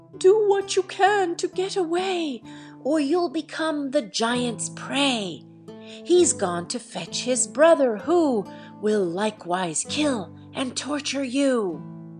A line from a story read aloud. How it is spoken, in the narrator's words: dreadful shrieks and cries affrighted Jack, especially a voice which continually cried